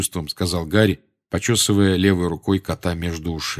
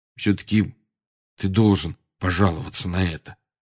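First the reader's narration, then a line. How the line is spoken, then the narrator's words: Said quietly. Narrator (Russian): тихо сказал Рон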